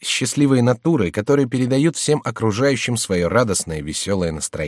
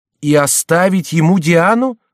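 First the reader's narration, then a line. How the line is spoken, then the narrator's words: Frightened shout. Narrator (Russian): закричала Жанна с испугом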